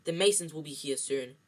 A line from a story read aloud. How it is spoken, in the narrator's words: snapped Aunt Petunia